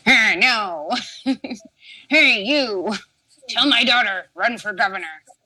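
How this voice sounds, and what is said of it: Imitates another person's voice. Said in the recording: “my John McCain impression”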